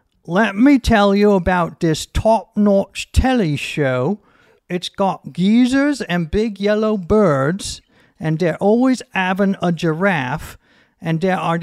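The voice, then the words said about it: Put-on British accent. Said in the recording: “how to do the accent ... So it's pretty flawless”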